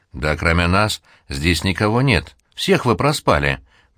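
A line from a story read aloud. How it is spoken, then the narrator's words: Ghoul's indifferent tone. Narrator (Russian): безразличным тоном ответил упырь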